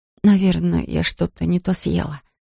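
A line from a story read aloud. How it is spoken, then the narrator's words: Muttered. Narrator (Russian): пробормотала она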